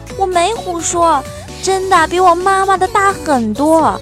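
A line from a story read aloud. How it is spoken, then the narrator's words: Loud child's voice. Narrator (Chinese): 小儿子大声说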